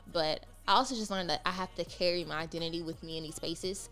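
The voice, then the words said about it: Southern US accent, Mississippi. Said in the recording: “because of my accent ... I'm from Mississippi”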